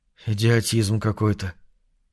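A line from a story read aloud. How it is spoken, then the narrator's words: Muttered. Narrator (Russian): пробормотал Трелковский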